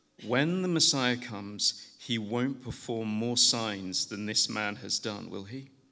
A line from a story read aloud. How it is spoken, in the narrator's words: the crowd murmuring